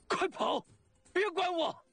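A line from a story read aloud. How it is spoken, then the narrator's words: Urgent shout. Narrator (Chinese): 范蠡……急喊着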